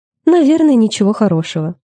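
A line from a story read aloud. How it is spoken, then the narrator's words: Sighing. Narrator (Russian): вздохнула Джейн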